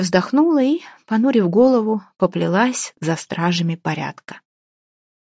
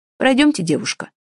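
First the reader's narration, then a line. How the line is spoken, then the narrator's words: Stern command. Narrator (Russian): строго скомандовал младший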